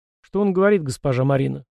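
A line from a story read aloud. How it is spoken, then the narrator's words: Tired question. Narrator (Russian): устало спросил Фрол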